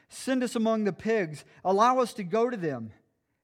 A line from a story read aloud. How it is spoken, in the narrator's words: The demons begged Jesus